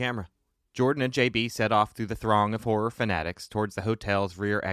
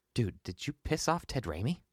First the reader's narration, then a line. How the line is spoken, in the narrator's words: Jordan asked in a hushed tone